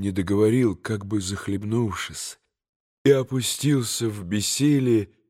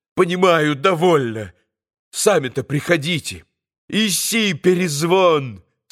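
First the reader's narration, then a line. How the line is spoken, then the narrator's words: Fierce shout. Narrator (Russian): Совсем уже свирепо прокричал он собаке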